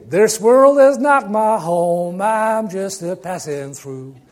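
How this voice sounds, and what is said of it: Imitates another person's singing voice. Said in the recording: “Terrible imitation.”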